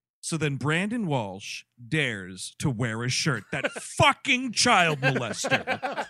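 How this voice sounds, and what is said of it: Imitates another person's voice. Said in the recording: “Chris Cabin impression”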